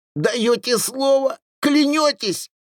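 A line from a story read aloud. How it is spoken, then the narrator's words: Shrill with fear. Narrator (Russian): От страха ее голос стал визгливым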